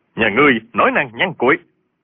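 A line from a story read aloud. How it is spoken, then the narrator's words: Scoffing shout. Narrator (Vietnamese): Võ Liệt mặt biến sắc, hừ một tiếng quát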